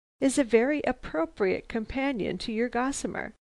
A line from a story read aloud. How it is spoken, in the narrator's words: he suddenly laughed